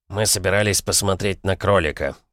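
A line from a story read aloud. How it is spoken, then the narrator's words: Mumbling. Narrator (Russian): пробормотал он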